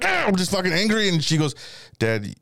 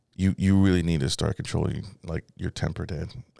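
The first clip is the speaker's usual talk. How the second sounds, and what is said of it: Calm voice. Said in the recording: “in a calm voice”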